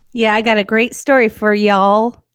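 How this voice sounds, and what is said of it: Put-on Texas accent. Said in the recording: “Did you like my Texas accent? ... Wow, that was different.”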